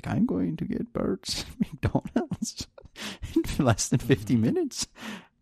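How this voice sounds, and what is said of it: Put-on Indian accent. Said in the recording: “in his fucking Indian accent”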